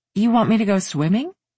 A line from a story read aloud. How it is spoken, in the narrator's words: she asked